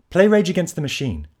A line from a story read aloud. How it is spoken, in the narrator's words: barked